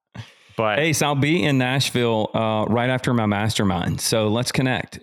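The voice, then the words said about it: Southern American accent. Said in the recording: “the amazing Southern accent like you do”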